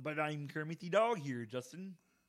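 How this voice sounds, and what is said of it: Kermit-style puppet voice impression. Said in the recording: “probably the best impression of anything you've ever done. But it's terrible and inaccurate”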